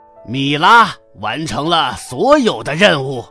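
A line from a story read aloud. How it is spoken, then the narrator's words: Loud announcement. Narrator (Chinese): 海盗头子大声宣布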